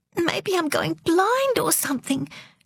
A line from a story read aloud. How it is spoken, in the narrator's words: choked Delore